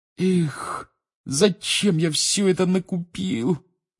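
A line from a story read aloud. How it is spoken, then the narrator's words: Groaning. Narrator (Russian): простонал Рон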